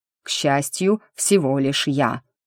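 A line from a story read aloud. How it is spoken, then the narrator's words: Booming. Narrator (Russian): прогудела тень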